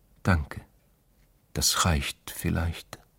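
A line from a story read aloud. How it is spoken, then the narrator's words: Whispering. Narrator (German): hatte geflüstert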